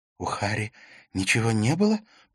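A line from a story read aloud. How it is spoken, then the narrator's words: Whispered. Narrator (Russian): прошептала Катрина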